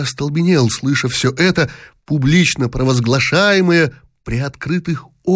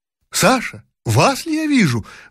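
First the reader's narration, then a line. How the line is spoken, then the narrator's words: Sudden exclamation. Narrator (Russian): вдруг воскликнула Жеребцова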